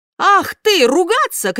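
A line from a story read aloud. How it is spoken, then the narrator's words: Shouted. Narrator (Russian): крикнул Джузеппе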